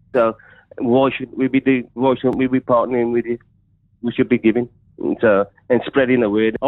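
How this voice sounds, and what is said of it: Wolverhampton accent. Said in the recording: “From Wolverhampton, love your accent. Love that accent.”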